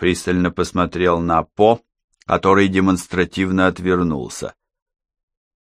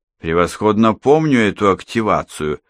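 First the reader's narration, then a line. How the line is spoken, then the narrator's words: Mockingly added. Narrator (Russian): насмешливо прибавил Хеннинг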